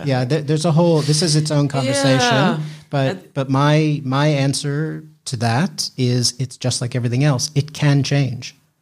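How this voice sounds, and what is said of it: American accent. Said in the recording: “as you can hear in my voice, I have an American accent”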